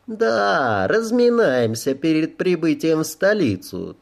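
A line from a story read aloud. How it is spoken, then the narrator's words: Languid gossipy cooing. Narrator (Russian): Тоном светской кумушки томно проворковала Аноя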